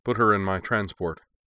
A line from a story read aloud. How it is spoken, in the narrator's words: the Kaiser said